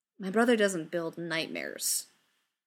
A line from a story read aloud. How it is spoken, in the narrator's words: Way says, staring at them coldly